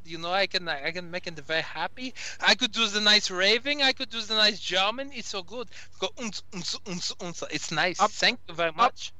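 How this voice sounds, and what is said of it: Put-on German accent. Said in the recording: “I can put on the German accent. The German accent is very good.”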